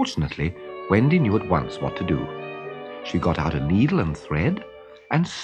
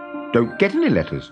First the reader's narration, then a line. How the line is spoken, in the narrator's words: he snapped